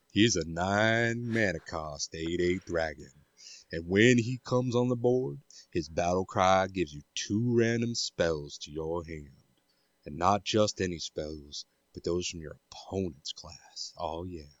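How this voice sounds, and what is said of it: Put-on southern accent. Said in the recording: “You had a bit of a southern accent going there.”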